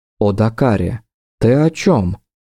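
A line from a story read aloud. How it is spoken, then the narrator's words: Woman calm, hiding fear. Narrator (Russian): Совершенно спокойно, ничем не выдав страха, что всего секунду назад плескался в каждом ее вздохе, произнесла Ингария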